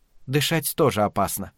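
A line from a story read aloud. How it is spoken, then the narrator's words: Calm. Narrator (Russian): ответила она спокойно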